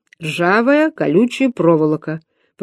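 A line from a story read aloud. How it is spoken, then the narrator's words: Calm repetition. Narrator (Russian): повторил спокойно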